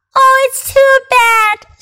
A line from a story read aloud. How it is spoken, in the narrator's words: sobbed Lucy